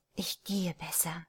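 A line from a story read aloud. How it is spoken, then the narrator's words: Murmured. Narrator (German): murmelte sie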